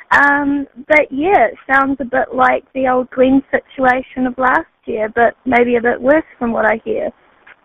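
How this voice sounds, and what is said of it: Speaks with a noticeable accent. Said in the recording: “I hope you enjoy the accent”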